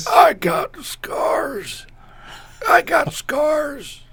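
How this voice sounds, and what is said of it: Old man voice. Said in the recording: “can you do an impersonation of Emilio's old man voice?”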